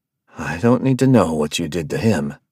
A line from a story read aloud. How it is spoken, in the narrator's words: he said, half chuckling in fear